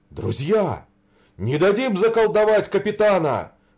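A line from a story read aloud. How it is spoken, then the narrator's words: Exclamation. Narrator (Russian): воскликнул святой Василий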